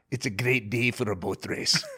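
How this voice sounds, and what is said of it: Put-on Scottish accent. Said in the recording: “I spoke with a Scottish accent? I can do one line”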